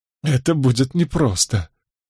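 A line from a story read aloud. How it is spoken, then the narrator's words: Smiling through tears. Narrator (Russian): улыбнулась Беатрис сквозь слезы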